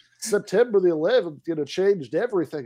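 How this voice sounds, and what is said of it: Put-on movie Southern sheriff accent. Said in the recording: “I'm slipping into doing this like guy at the Michigan Ontario boarding crossing, like with the accent of like a, you know, movie like Southern Sheriff... doing full Fargo voice”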